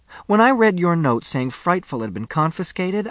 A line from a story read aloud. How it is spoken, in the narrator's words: I cried